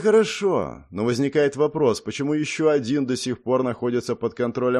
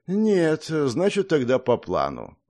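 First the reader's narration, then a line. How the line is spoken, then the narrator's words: Sighing reply. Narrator (Russian): вздохнув, ответил Сурьё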